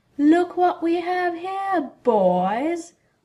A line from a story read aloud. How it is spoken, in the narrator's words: Nott drawled to his companions